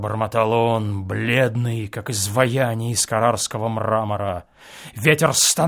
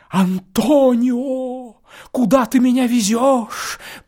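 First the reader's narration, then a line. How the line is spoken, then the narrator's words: Moaning. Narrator (Russian): простонал Теодор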